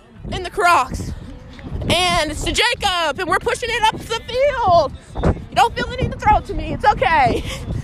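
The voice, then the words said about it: Out of breath. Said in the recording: “I sound out of breath.”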